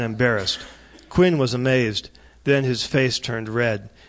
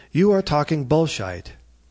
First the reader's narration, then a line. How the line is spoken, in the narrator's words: he said in a mild and polite tone of voice